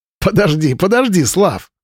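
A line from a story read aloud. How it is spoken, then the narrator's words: Laughing. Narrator (Russian): смеялся Марат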